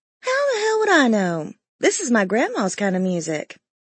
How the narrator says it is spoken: replied with a laugh

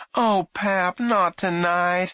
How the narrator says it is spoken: Alfie's mother moaned

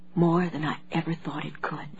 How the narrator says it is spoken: Claire whispered

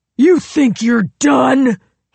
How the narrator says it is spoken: He screamed

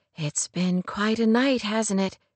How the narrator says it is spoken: she murmured

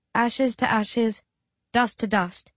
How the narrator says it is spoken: I murmur

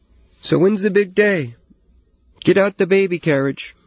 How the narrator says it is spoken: Hillary called out

